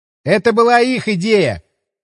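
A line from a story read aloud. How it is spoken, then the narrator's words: Shouting from afar. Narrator (Russian): крикнул он уже оттуда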